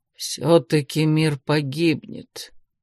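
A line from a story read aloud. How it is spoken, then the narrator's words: Gloomy clarification. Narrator (Russian): мрачно уточнил он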